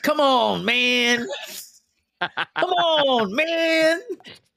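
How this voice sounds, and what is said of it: Joe Biden impression. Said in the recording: “my Joe Biden impression”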